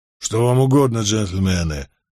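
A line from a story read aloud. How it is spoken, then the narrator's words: Low muffled voice. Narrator (Russian): осведомился он глуховатым низким голосом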